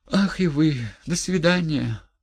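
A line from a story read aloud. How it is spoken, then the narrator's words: Affectionate babbling. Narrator (Russian): пролепетала она привычно ласковым тоном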